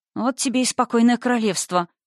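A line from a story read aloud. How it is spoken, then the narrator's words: Mumbling. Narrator (Russian): пробормотала я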